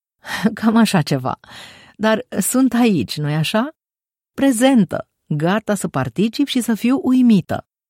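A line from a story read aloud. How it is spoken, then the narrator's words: Laughing. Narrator (Romanian): Andrea râse și spuse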